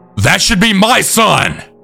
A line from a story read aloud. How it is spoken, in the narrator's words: Abby was then screaming